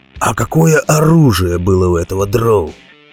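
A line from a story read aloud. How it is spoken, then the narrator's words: Gloomy question. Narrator (Russian): мрачно спросил Роди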